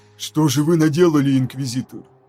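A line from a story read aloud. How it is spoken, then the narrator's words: Muttering. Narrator (Russian): пробормотал сын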